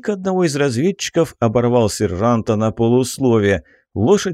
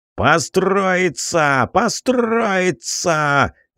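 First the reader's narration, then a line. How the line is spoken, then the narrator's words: Yelling. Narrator (Russian): заорал Бернард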